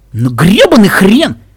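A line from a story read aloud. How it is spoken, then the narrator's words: Exclaimed. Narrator (Russian): воскликнул Рейнбоу Дэш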